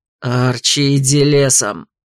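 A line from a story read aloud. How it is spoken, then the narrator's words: Angry growl. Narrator (Russian): гневно прорычал жених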